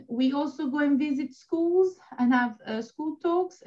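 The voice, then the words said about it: Soothing Italian accent. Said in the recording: “your gorgeous accent ... your voice is so soothing ... The accent is Italian ... a little bit of Italian”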